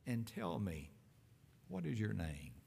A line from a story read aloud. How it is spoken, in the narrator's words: tenderly, gently, to the man himself, Jesus asked